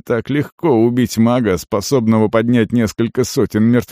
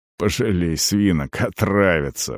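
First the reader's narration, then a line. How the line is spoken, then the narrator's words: Grumbling mutter. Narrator (Russian): буркнул Арон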